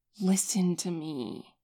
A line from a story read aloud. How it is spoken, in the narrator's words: Hossok says through his teeth